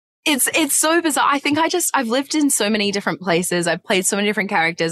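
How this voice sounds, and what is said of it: Australian accent with American twang. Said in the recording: “you've got this beautiful Australian with this American twang”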